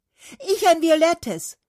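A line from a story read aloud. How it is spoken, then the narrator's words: Fir tree calling. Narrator (German): rief die Tanne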